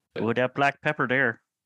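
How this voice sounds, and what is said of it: Put-on Midwestern accent. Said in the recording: “Sorry, that's a Midwest thing, actually. ... that is the farthest from a British accent anyone's been this episode.”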